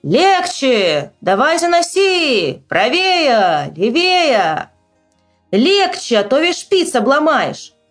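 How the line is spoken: Shouting at each other. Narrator (Russian): Они кричали друг на друга

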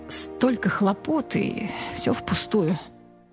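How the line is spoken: Dejected muttering. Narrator (Russian): подавленно пробормотал

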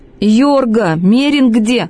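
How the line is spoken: Angry shout. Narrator (Russian): прокричал он злобно

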